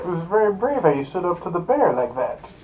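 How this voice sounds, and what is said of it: Voice altered by voice changer. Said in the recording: “Is he using a voice changer? ... I think the voice changer we sound like Batman originally. ... You don't sound anything like Batman.”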